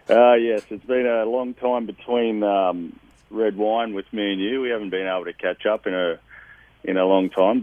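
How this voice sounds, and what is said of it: Handsome foreign accent. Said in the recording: “there's that handsome accent.”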